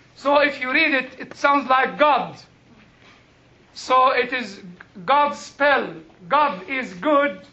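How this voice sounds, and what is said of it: Noticeable non-native English accent. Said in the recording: “my funny accent”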